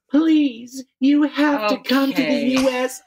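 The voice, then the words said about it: Imitates another person's voice. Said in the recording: “good impression of her ... that's dead on”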